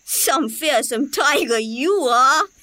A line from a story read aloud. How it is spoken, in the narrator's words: scoffs Bittu